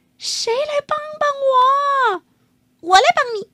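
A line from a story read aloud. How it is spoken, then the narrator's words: Loud shout. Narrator (Chinese): 幸运的鸡大声叫起来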